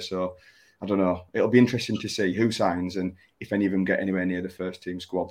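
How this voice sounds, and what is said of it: Strained, fading voice. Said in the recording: “losing my voice a little bit”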